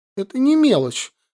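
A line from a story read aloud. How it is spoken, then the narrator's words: Offended sniffle. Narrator (Russian): Галия обиженно шмыгнула носом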